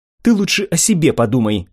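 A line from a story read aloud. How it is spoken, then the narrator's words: Snapping retort. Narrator (Russian): огрызнулась Сата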